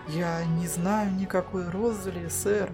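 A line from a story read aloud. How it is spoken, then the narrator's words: Quiet. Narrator (Russian): тихо сказал он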